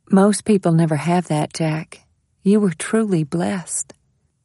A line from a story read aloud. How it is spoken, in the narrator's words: Jenna said quietly